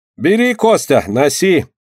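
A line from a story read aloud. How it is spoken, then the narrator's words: Cheerful, hurried. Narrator (Russian): торопясь освободиться от нее, весело говорит Малайка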